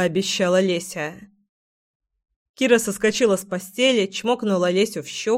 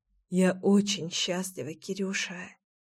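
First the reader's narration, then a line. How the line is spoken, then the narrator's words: Affectionate whisper. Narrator (Russian): ласково зашептала Леся мне на ухо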